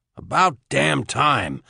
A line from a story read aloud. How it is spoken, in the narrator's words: Max said in a gruff tone to hide his relief